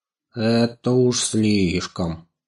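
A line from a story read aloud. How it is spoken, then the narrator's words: Grumbling. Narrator (Russian): заворчал Мурзик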